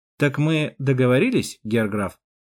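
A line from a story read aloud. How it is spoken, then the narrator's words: Plain. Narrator (Russian): Спросил его собеседник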